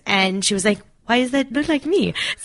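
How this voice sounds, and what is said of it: Put-on French accent. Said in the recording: “That's my French accent. ... either it's really good, or it's really not.”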